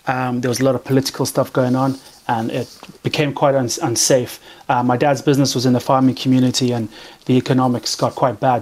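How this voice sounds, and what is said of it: Zimbabwean accent. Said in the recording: “What sort of accent is that? ... Zimbabwe.”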